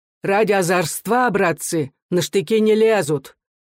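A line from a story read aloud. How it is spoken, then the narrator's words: Strong loud voice. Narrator (Russian): Чей-то голос сильно и громко говорил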